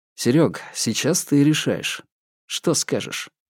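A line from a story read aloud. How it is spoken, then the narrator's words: Sighing. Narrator (Russian): Бабкин вздохнул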